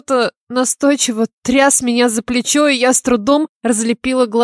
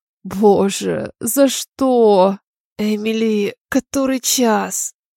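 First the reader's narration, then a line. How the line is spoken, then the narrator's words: Hoarse question. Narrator (Russian): Спросила я, хрипло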